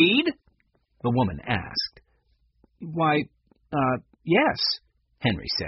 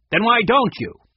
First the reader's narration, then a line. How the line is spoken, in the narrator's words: She snapped